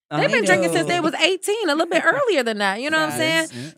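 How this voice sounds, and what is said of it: American accent. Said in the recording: “as an American girl ... American black girl at that ... talk with my accent”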